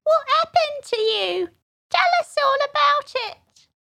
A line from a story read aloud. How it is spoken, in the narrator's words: a little feeble squeaking voice